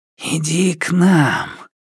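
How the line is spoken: Whisper. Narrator (Russian): шептала она

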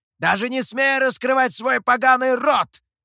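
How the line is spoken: Shout. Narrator (Russian): закричал Михоу

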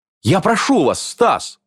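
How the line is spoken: Pleading. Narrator (Russian): взмолилась Майя

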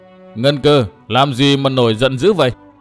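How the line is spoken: Clear voice after booming laughter. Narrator (Vietnamese): trên không vang lên một chuỗi cười to như long ngâm, tiếp theo là một giọng trong rõ nói

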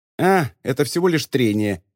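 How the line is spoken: Grumbled. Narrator (Russian): проворчала Рипс

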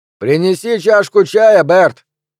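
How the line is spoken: Man shouting. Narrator (Russian): крикнул мужчина

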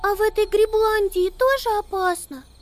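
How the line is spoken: Squeaked. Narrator (Russian): пискнула Амелия

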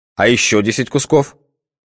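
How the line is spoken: Stern question. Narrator (Russian): строго спросил Михаил Дмитриевич

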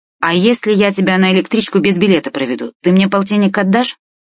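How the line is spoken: Plain. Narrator (Russian): спросил новый знакомый

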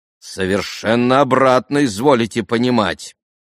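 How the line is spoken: Stern. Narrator (Russian): строго проговорил отец Паисий

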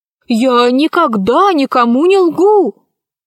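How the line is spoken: Joyful exclamation. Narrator (Russian): радостно воскликнул Хосе

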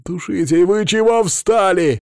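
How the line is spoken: Shouting. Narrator (Russian): закричал на нас

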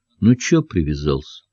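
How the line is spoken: Dull tired voice. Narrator (Russian): Фаттах тем же тусклым усталым голосом спросил

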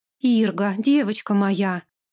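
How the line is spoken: Exclaimed. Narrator (Russian): воскликнула она

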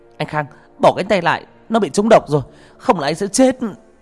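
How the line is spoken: Shout. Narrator (Vietnamese): cô Dùng cũng quát

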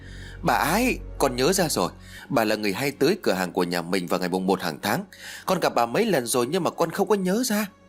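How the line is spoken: Excited cry, boy. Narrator (Vietnamese): Thằng Huy lập tức reo lên

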